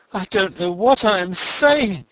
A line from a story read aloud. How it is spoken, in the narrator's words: he cried, as the impulse of self-control under which he had spoken a moment since flickered and died out